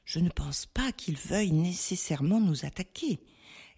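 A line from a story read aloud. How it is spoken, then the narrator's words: Explaining in a murmur. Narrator (French): expliqua Roger, dont la voix s'était inexplicablement changée en murmure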